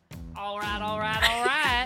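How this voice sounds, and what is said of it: Put-on Western accent. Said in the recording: “My Western accent”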